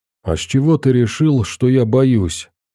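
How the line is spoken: Trembling voice. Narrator (Russian): ответил дрожащим голосом Веник

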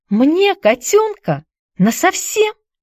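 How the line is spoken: Excited, disbelieving question. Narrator (Russian): взволнованно спросила Хайди, не смея поверить такому счастью

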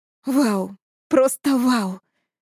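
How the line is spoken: Breathless exclamation. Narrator (Russian): выдохнула она

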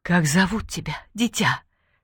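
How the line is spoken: Barely audible question. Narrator (Russian): спросила еле слышно

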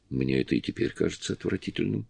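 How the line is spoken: Plain. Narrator (Russian): сказала Кэрри

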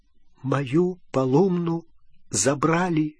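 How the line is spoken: Whisper. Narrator (Russian): прошептал он

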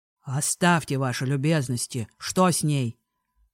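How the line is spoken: Lord's growl. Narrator (Russian): прорычал лорд

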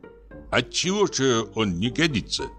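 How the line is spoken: Plain question. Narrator (Russian): спросил Петр Демьяныч

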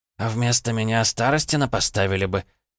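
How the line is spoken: Snort. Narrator (Russian): он хмыкнул

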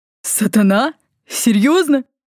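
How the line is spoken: Chuckling. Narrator (Russian): красноволосый хохотнул

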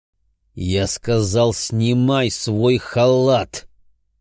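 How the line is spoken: Forceful, through gritted teeth. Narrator (Russian): С напором процедил я

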